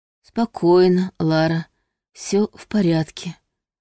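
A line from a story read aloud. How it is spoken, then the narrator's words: Hoarse. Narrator (Russian): хрипло проговорил он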